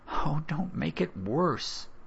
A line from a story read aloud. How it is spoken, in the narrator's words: his mother sighed